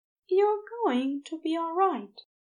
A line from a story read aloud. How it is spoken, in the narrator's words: he said softly